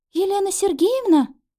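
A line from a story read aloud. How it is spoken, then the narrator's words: Uncertain. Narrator (Russian): неуверенно произнесла она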